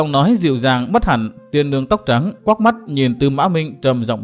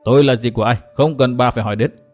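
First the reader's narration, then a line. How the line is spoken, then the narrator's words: Cold scoff. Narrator (Vietnamese): Tư Mã Minh lạnh lùng hừ một tiếng nói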